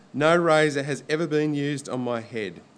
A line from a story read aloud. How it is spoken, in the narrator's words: he said